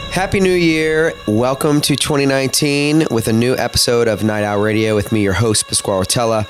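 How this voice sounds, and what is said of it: Voice affected by a cold. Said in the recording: “Sorry about my voice. I'm a little under the weather. I've had this lingering cold for 2 weeks.”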